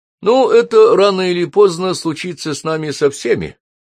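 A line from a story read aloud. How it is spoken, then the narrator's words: Cheerful. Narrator (Russian): бодро ответил Майкл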